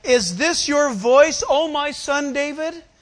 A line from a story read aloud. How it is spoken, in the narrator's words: Saul lifted up his voice and wept